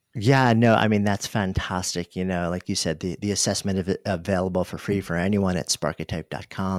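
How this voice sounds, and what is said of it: Rich, polished radio voice. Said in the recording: “You can hear, and his voice, right? ... just got this amazing, amazing radio voice.”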